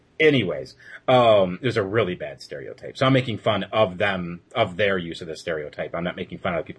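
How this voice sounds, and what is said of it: Usual voice. Nothing is said of it.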